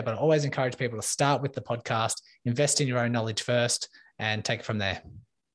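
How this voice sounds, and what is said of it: Australian accent. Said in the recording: “in case you can't tell from his accent, ... coming to us from Australia, from down under.”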